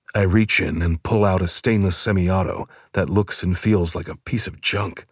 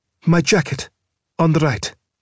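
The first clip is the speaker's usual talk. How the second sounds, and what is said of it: Frightened, scared female character voice. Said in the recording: “She looks scared shitless, and in a voice that confirms to me she is, in fact, scared shitless”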